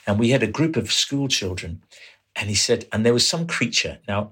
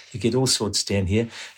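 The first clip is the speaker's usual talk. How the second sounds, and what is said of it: Imitated New Zealand accent. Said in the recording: “It's a New Zealand accent, so it's slightly different.”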